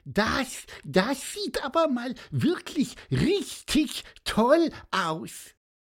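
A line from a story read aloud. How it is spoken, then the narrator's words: Squeaky voice. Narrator (German): piepste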